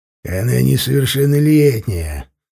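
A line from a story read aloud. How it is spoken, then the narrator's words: Mocking deep bass, smirking. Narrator (Russian): с издевкой в голосе, ухмыляясь, пробасил Бугай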